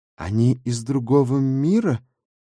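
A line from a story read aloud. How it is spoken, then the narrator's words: Uncertain guess. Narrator (Russian): неуверенно предположил второй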